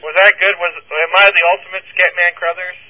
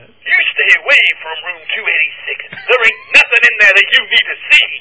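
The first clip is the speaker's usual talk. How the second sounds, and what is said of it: Imitates another person's voice. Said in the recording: “Can you do a Scatman Crothers impersonation? ... That was pretty good.”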